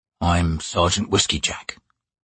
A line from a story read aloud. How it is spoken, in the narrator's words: the bearded man said quietly